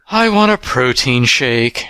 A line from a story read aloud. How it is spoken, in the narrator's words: she sighed